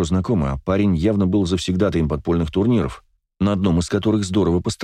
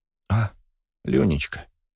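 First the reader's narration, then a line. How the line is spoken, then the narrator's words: Woman's mutter. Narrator (Russian): пробормотала женщина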